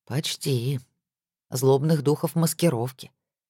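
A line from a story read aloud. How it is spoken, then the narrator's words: Grim smirking. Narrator (Russian): Эмир мрачно усмехнулся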